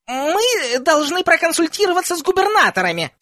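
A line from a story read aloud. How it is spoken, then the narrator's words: Squeaky voice. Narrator (Russian): сказал профессор Флитвик писклявым голосом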